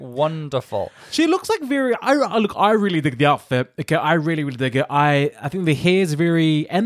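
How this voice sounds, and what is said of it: Usual voice. Nothing is said of it.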